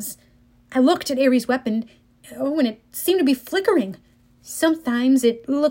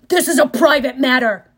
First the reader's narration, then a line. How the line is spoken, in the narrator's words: Ares bellowed